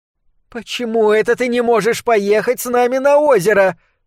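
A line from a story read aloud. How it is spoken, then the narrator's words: Whining, muffled behind wall. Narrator (Russian): с поскуливающими нотками в голосе говорила за стеной мать Вик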